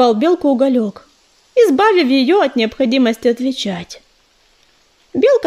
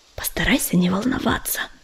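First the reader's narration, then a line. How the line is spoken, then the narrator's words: Whisper. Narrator (Russian): шепнула она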